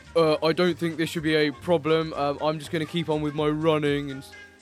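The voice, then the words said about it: Deep voice imitating Caster Semenya. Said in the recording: “she had a really deep voice”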